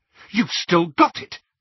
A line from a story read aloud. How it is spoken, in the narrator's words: cried Hermione